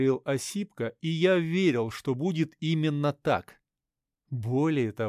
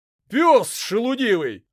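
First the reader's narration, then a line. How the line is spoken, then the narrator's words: Shout. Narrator (Russian): выкрикнул Осипка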